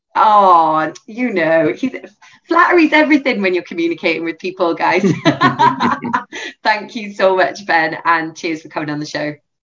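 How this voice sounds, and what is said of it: Lilting Welsh accent. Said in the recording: “your lilting Welsh accent”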